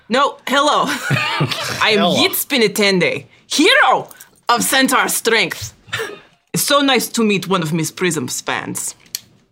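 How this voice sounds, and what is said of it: Cute put-on character accent. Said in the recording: “Your accent is also cute.”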